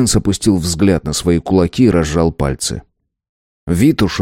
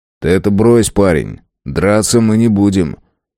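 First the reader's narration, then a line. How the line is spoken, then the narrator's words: Cheerful. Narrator (Russian): Весело посмотрев на старосту, он сказал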